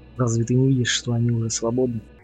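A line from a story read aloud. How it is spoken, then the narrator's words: Plain. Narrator (Russian): спросил я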